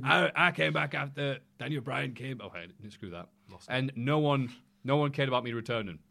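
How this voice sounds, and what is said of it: Imitates another person's voice. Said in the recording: “That's quite good. ... No, that's not big ass at all. That was a bit Ric Flair in the end.”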